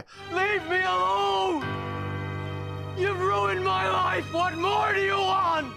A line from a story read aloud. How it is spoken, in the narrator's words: he screams into the sky